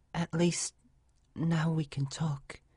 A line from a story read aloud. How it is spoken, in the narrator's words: Aurora whispered in the dark